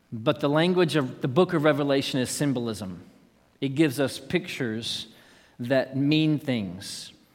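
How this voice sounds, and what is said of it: East Texan English accent. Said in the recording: “Mine is East Texan English, personally. It's my dialect.”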